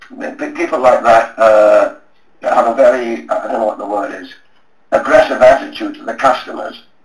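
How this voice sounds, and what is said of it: Hoarse, strained voice. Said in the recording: “I'm losing my voice now, I'm nearly dead.”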